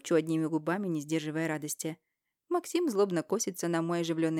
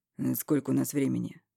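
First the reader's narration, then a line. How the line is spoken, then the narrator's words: Dry question. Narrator (Russian): сухо спрашивает Максим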